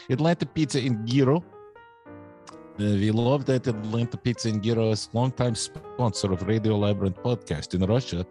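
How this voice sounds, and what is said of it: Put-on vaguely Russian accent. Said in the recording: “I will be doing the commercial in this accent because it's sort of Russian, but maybe not”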